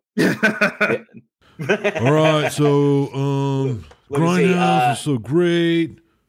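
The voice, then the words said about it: Imitates another person's voice. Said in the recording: “my horrible Alex impression”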